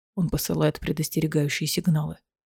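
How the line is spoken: Whispered. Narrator (Russian): прошептал Рован

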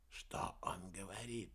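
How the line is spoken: Whisper. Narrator (Russian): прошептал Уэрба

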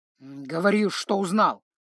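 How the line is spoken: Curt grumble. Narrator (Russian): буркнул Павоне

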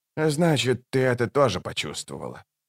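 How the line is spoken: Pause then sigh. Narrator (Russian): помолчал и вздохнул

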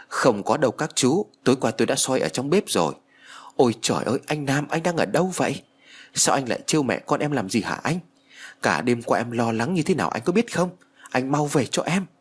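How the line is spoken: Crying, sobbing woman. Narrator (Vietnamese): Chị An khóc lóc nói

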